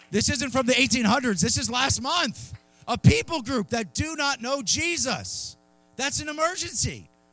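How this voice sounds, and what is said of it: Yelling, loud preaching voice. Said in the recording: “I'll stop yelling too. I'm sorry. The children are scared in the front... Don't yell.”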